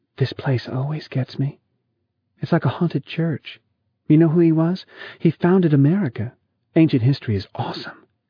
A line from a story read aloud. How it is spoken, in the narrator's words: Lita whispered